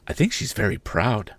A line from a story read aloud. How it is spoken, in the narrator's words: replied in a whisper